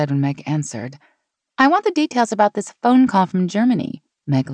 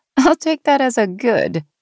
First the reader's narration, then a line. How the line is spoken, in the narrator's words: Sean said with a laugh